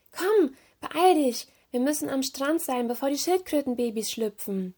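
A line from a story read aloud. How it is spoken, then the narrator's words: Calling out. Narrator (German): rief Marina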